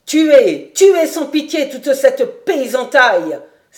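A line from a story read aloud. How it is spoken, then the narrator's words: Shouting. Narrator (French): s'écriait-il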